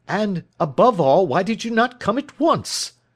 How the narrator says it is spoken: cried

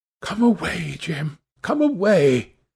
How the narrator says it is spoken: she whispered

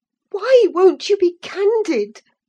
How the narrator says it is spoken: cried Catherine

